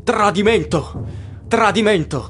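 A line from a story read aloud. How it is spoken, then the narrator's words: Many voices shouting. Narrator (Italian): gridano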